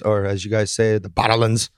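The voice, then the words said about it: Put-on Scottish accent. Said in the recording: “Pretty good Scottish accent”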